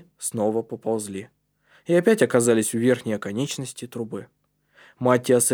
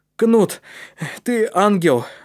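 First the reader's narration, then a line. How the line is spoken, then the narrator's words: Exclamation. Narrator (Russian): воскликнул Калеб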